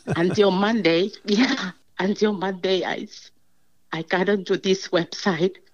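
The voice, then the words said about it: Emotional, choked-up voice. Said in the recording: “I got emotional.”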